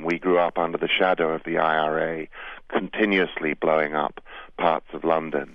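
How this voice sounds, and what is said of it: British accent. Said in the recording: “You can tell from my accent that I am from Britain.”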